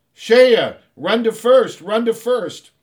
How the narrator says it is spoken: Everyone started yelling

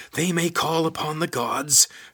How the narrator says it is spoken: shouted Lizard

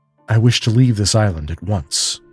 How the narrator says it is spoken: said Rainsford firmly

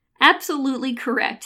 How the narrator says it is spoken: snapped Death

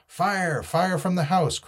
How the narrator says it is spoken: cried the doctor

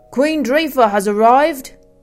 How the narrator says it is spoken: Benin bellowed, projecting his voice to the far reaches of the glen

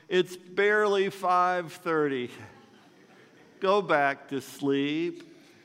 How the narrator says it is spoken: My father groaned

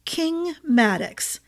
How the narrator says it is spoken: Jago began, in that cool, disdainful drawl of his

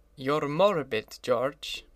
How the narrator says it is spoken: said his friend

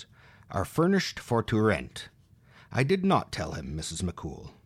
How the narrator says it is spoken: Purdy in her furriest tones

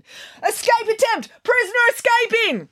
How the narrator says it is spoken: guards were yelling

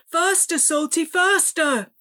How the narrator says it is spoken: Ben yelled

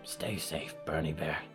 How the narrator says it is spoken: she whispered

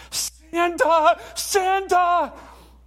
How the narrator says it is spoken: He's so excited, and he screams out

